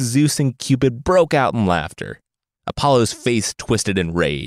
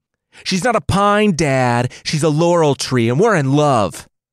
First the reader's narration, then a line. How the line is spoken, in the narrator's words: Apollo shouted through tears